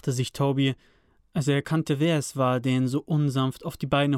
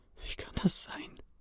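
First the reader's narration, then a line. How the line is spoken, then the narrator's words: Breathed softly. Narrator (German): hauchte er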